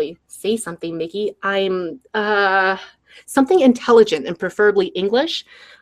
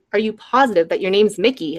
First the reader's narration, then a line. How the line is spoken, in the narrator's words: Another chuckle